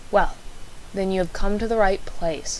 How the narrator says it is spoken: Holmes sighed

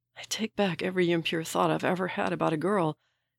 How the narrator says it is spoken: he whispers

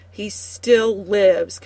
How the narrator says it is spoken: Keturah snarls

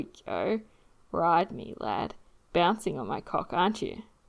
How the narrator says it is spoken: Steed moans because it feels amazing to be stretched and filled like that

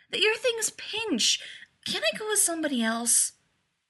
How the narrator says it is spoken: he whined

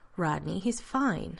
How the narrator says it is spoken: Elizabeth assured him firmly

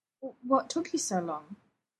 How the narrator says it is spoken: he said, with barely a quaver

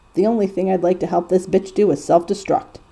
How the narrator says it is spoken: Dean grumbles

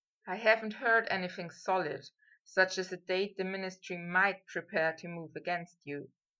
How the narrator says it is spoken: Harry said softly

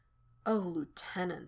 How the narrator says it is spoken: he murmurs

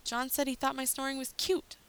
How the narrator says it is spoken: Rodney snapped

